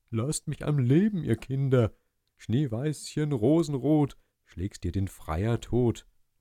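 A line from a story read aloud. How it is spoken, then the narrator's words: Calling out. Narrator (German): Nur wenn sie's gar zu arg machten, rief er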